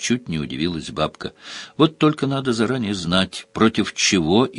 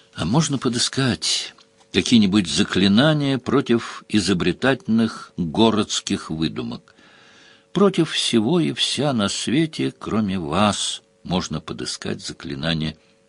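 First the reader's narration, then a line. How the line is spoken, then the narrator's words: Asked with furtive sigh. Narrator (Russian): Украдкой вздохнув, Сварог спросил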